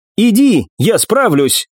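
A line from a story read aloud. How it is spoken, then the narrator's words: Shouted. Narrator (Russian): крикнула Нефрит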